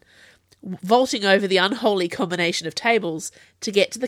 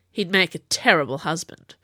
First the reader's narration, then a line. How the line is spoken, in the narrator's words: Jules muttered